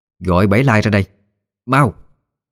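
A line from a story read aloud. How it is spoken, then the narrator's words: Mother's sharp shout. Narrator (Vietnamese): Bà mẹ quát lên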